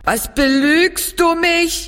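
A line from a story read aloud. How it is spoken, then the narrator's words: Calling out. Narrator (German): rief sie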